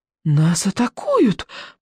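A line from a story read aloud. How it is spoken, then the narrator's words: Child's whisper. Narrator (Russian): прошептал рыбьенок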